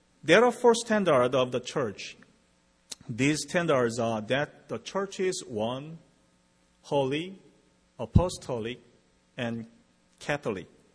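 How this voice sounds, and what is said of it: Non-native English accent. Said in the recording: “my English is limited ... Please do not listen my accent”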